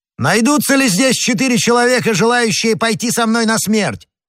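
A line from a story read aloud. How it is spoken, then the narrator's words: Shouting. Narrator (Russian): крикнул Д'Артаньян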